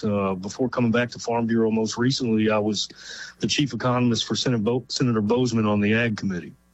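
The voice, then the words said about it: Kentucky American accent. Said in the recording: “you may tell by my accent that I'm not from the West Coast. I'm originally from Kentucky”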